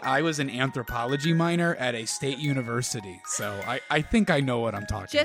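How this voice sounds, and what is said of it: Smug, self-satisfied voice. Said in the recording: “my best smug impression”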